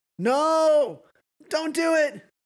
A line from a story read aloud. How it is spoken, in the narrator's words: Sam shout